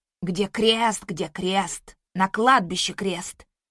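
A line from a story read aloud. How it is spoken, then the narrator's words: Nasty mocking mimicry. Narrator (Russian): передразнил противным голосом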